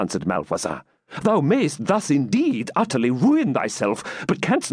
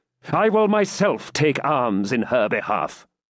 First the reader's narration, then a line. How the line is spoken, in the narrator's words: answered the Templar haughtily